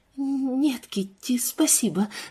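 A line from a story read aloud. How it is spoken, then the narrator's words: Quiet, forced smile. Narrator (Russian): сказала Лиззи тихим голосом, силясь улыбнуться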